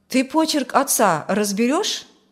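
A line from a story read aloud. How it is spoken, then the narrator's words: Plain. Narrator (Russian): спросил тот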